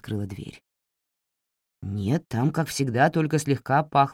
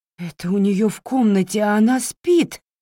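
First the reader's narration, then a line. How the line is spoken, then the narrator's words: Exclamation. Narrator (Russian): воскликнула миссис Гординс-старшая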